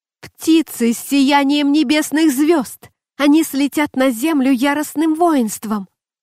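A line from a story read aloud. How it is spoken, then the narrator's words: Screaming. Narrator (Russian): она закричала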